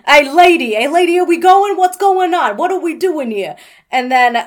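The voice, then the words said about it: Put-on New Jersey accent. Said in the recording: “that's a good accent... That's a good, like, that and the Texas accent... you from New Jersey right now?”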